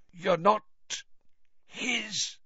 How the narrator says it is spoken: whispered Crouch, his mouth sagging

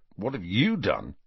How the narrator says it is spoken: Ron muttered to Harry

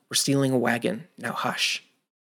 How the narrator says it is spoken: Midwin whispered

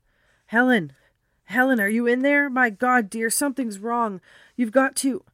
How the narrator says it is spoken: his voice choked off

